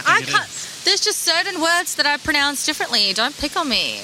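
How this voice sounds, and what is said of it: Non-native English accent. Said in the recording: “Sorry, my accent ... That's my accent ... It is my accent ... English is my second language, brother ... I try and say it with an O, but it comes out as Leanne.”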